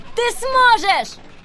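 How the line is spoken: Yelled from a cliff. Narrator (Russian): завопил Рианон с вершины утеса

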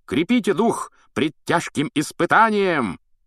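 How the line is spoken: High-pitched shout. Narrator (Russian): крикнул на высокой ноте рыцарь

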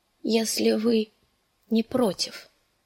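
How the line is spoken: Weak voice. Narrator (Russian): договорила она слабым голосом

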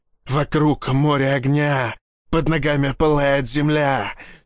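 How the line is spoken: Hoarse, strained wheeze. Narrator (Russian): сипел напалм

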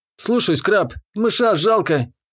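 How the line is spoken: Nearly sobbing young man. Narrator (Russian): почти всхлипнул парень

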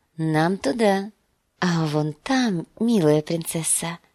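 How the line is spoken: Whisper. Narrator (Russian): прошептал он

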